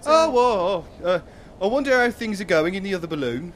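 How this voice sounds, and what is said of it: Lyrical put-on accent. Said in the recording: “I much prefer this accent. It's more lyrical.”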